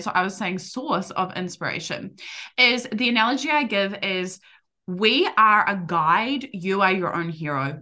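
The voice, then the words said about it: New Zealand accent. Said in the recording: “I hear my Kiwi accent now so bad”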